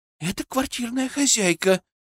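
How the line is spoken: Frightened whisper. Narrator (Russian): испуганно шепнула Муромцева

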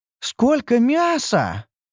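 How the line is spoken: Delighted exclamation. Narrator (Russian): восторженно воскликнула Ньюру

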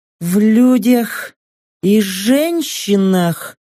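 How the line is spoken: Hoarse. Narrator (Russian): Столь же хрипло, как и я недавно произнесла Сака

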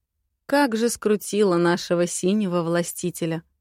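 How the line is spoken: Female chuckling. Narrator (Russian): хохотнула

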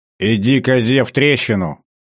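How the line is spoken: Barked gruffly. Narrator (Russian): рявкнул граф

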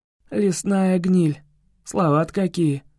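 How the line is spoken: Chuckling. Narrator (Russian): хохотнул Кай

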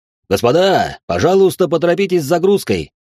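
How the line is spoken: Shouted from afar. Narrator (Russian): прокричал с палубы капитан

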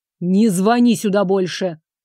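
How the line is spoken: Growled into phone. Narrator (Russian): прорычал в трубку

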